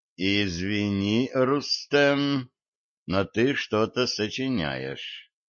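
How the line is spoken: Slow speech. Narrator (Russian): медленно проговорил

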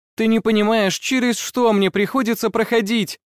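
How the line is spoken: Shouting. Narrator (Russian): кричала она

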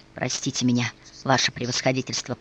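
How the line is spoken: Whisper. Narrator (Russian): прошептал Николай

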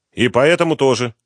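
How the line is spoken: Stern. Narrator (Russian): строго ответил Романенко

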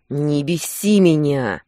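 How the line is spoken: Growled. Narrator (Russian): прорычал

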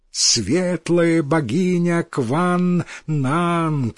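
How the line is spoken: Crowd shouting. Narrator (Russian): кричали они

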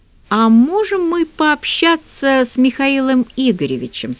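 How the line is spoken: Plain. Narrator (Russian): спросил он

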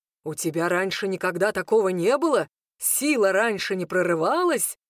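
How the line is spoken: Stern question. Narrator (Russian): строго спрашивает Хенрик

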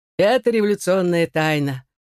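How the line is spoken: Laughing. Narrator (Russian): рассмеялся он

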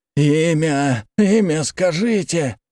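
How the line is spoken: Hoarse. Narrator (Russian): прохрипел он

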